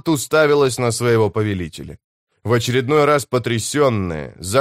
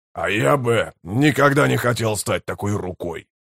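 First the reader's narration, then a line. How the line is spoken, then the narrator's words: Growling. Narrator (Russian): прорычал Брут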